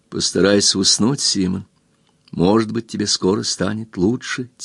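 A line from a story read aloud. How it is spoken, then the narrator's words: Soft. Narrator (Russian): тихо сказала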